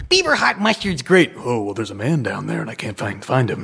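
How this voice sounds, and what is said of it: Imitates other people's voices. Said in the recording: “just like different voice ... impressions of stuff”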